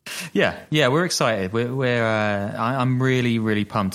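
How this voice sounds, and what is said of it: Flat, monotone, sarcastically unexcited. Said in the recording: “as you can tell from my voice. It's not it doesn't really waver up and down, right?”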